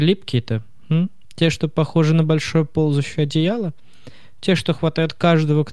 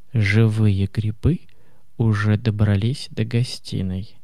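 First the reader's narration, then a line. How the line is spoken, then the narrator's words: Whisper. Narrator (Russian): Она прошептала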